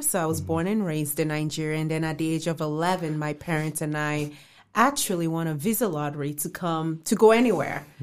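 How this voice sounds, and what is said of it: Mild non-American accent. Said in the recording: “you have a little accent there ... It's a very nice accent.”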